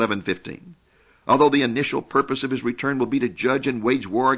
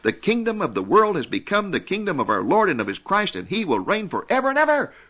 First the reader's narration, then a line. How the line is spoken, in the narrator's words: voices in heaven will shout